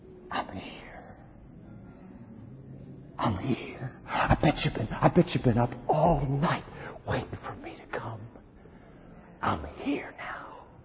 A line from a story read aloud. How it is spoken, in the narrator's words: a voice inside of us that whispers